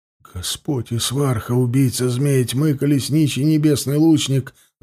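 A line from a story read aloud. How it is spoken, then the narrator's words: Whispering. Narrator (Russian): зашептал Тулум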